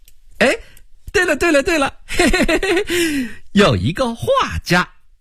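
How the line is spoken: Sudden realization, laughing. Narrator (Chinese): 杨琦恍然大悟，笑了起来

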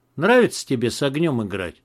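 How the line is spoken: Grim. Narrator (Russian): мрачно сказал Макс

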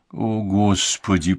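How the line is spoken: Groan. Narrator (Russian): простонал он

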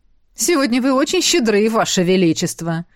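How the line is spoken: Snide remark. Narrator (Russian): ехидно заметил Эштон

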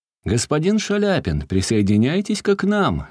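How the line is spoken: Cheerful shout, priest. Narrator (Russian): весело крикнул поп

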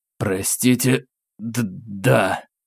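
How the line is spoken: Slight stammer. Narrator (Russian): чуть заикаясь, ответил я

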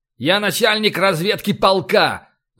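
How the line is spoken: Captain yelling, flushed with anger. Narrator (Russian): заорал капитан, покрываясь красными пятнами

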